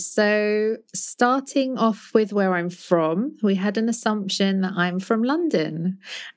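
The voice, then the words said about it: British London accent. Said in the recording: “I speak with a British accent ... I'm from London. That's where I was born and raised.”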